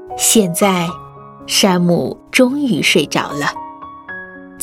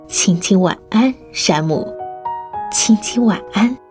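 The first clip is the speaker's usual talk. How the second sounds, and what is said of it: Soft, quiet whisper. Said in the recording (Chinese): “小声地说”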